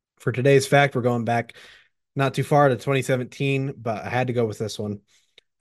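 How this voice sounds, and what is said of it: Hoarse, fading voice. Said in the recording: “as you can tell, I'm kind of losing my voice”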